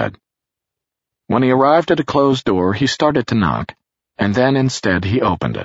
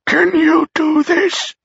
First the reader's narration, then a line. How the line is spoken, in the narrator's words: she wheezed